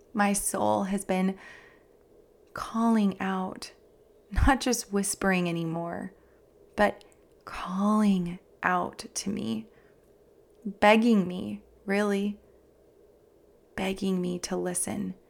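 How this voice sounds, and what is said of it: Emotional voice. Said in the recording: “I'm getting emotional.”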